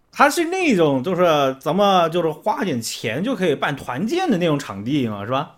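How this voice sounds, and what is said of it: Heavy regional accent. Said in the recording (Chinese): “现在你的口音太重”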